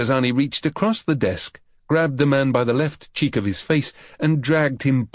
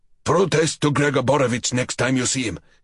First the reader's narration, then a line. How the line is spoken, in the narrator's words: he snapped